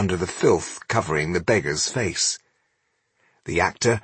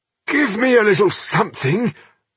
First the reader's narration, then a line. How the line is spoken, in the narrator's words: Rodario begged